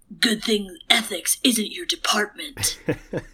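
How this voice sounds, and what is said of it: Batman voice impression. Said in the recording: “can you do it in your Batman voice?”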